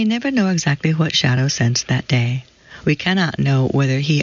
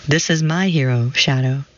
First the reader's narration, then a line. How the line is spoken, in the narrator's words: she says